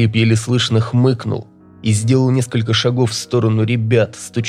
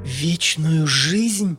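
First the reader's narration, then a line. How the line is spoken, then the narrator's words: Eerily quiet, tearful, trembling. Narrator (Russian): Пугающе тихим голосом выдавила Танька сквозь слезы и дрожь в голосе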